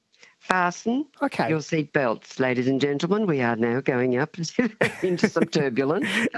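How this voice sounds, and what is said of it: Australian borderland regional accent. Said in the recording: “I didn't know there was this borderland accent. So Australia's got more accents”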